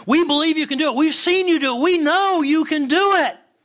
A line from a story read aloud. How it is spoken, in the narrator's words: again, everyone shouted